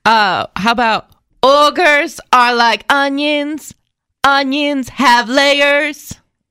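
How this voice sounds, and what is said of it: Bad slow Shrek character voice. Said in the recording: “That is the worst impression... That's so bad... That's a wannabe Shrek. That's not really Shrek... Why are you talking slowly?”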